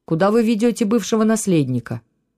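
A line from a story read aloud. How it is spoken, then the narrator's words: Abrupt question. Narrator (Russian): резко повернулся и спросил учителя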